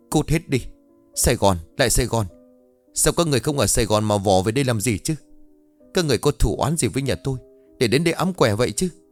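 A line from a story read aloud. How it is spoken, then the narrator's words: Shouting. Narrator (Vietnamese): Bà ta hét lên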